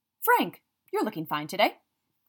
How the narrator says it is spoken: Gran said in a false bright tone

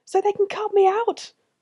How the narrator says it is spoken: screamed

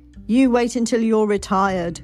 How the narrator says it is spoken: laughed

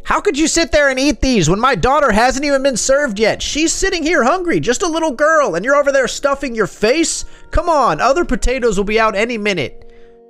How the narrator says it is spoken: Ellen yelled at the old lady

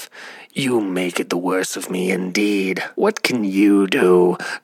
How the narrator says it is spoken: the carter, grumbling to himself

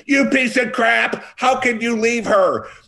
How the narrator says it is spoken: someone's screaming

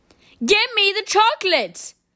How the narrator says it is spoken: shouted Bruno, becoming suddenly suspicious

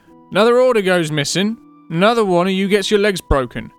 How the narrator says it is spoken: shouted a man

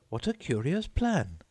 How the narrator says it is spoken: exclaimed Alice

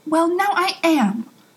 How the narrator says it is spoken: Aziraphale said, much too sharply

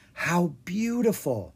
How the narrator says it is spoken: Anna whispered

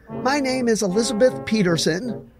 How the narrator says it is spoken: was practically screaming over the music

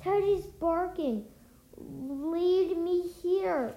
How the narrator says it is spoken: cried Annie

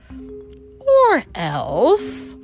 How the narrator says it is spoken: purred Carina, in a dangerously sweet tone

